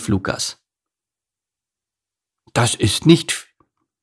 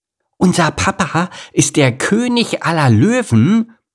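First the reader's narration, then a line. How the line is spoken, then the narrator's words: Excited exclamation. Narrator (German): rief Leila aufgeregt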